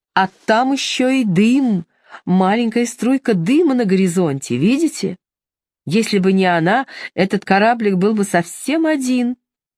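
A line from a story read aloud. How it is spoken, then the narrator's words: Joyful. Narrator (Russian): Мэг радостно продолжала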